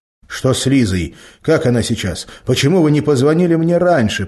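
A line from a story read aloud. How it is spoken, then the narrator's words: Near-shouting into phone. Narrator (Russian): почти кричал в трубку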